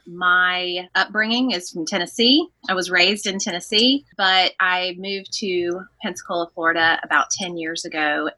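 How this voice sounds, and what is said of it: Southern American accent. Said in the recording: “I am just like Stacy with a Southern accent”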